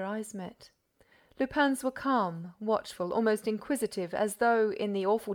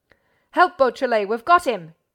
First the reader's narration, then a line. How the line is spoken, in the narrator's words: Ganimard bellowed